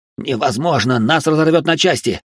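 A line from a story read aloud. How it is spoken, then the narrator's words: Frightened babbling. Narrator (Russian): пролепетал пилот, от страха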